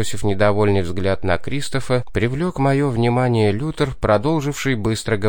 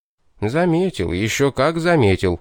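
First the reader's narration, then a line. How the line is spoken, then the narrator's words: Grumbling. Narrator (Russian): проворчал я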